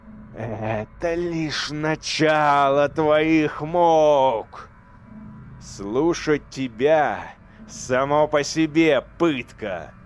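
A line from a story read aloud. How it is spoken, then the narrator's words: Angry growl. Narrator (Russian): зарычал Эйдолон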